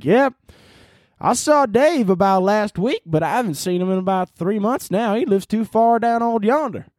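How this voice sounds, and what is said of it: Put-on Southern US accent. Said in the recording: “my Southern accent is outstanding. Don't even act like it's not good.”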